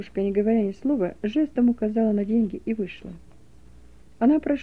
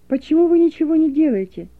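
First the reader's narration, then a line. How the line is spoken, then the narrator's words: Shouting young woman. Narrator (Russian): закричала девушка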